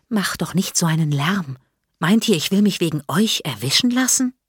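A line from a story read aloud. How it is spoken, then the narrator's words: Boy whispering. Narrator (German): Ein Junge im Schlafanzug flüstert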